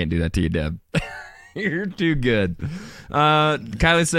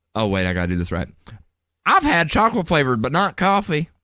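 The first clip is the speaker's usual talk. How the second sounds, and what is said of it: Exaggerated Southern US accent. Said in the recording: “give Deborah an extreme southern accent”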